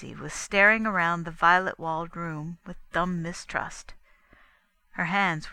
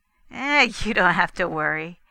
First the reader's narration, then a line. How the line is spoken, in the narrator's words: Fay assured her with an understanding laugh